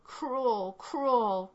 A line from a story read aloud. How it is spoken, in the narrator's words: groaned the heart-stricken bride